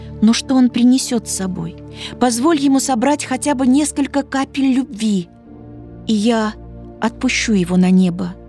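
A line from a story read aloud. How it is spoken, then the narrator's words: Mother's plea. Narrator (Russian): взмолилась мать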